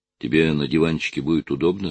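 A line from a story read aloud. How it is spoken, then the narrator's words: Plain question. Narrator (Russian): спросил он сына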